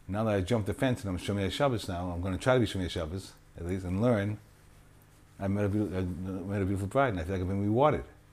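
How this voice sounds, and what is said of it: Boston accent. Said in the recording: “That Boston accent again ... from Boston. He means rewarded.”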